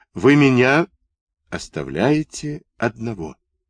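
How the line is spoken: Sudden quiet question. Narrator (Russian): спросил вдруг тихо

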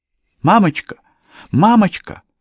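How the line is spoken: Alarmed young woman's cry. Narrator (Russian): воскликнула девушка, окончательно осознав, что происходит

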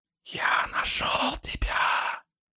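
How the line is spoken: Chilling whisper. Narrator (Russian): Послышался леденящий душу шепот

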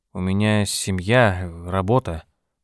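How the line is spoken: Mumbling. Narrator (Russian): промямлил он

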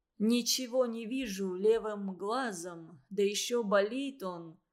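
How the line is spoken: Slightly muffled voice. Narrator (Russian): глуховатым голосом говорил столяр

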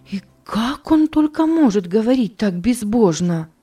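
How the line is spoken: Frightened exclamation. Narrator (Russian): она испуганно воскликнула

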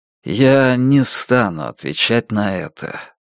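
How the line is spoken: Weary. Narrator (Russian): устало промолвил он

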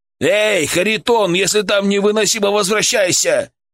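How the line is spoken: Shouted. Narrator (Russian): крикнул Александр

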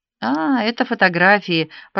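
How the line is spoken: Distracted murmur. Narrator (Russian): пробормотала я, еще не завершив переход от истории к реальности

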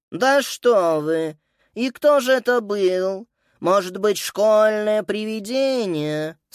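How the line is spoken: Bored voice. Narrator (Russian): скучным голосом спросила госпожа Пенне

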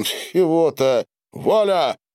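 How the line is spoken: Laughing. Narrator (Russian): Смеясь

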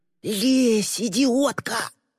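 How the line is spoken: Hissed close whisper. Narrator (Russian): прошипел Боди ей в ухо

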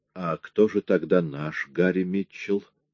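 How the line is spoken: Plain. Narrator (Russian): спросил Лепски

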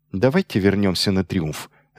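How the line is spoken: Sharp. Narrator (Russian): резко сказал

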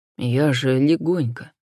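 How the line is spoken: Apologetic whisper. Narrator (Russian): шепотом повинился менталист-телекинетик

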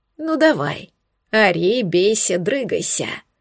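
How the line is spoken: Hoarse rasp. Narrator (Russian): прохрипел Фабиан

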